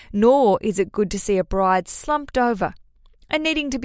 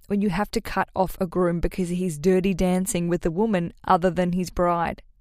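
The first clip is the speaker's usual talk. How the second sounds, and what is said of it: Mock-serious voice. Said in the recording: “I'm going to put my serious voice on.”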